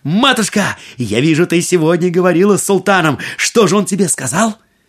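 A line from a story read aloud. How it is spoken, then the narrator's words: Exclaimed. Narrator (Russian): Аладдин воскликнул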